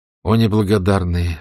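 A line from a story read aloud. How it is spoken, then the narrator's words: Sighed. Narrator (Russian): вздохнула Элизабет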